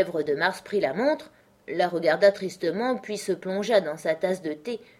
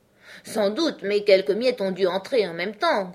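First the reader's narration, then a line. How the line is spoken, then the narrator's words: Grumbling. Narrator (French): grommela le chapelier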